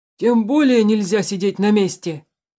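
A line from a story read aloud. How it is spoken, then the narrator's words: Shouting. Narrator (Russian): закричал Тулис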